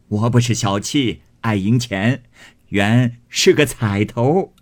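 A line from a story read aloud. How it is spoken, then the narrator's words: Laughing. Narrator (Chinese): 向薛姨妈笑道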